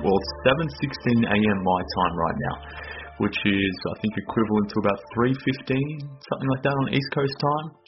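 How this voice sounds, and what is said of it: Australian accent. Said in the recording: “based on my accent, but I'm based in Australia”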